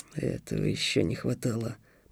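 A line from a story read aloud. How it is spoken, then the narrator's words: Muttered. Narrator (Russian): пробормотал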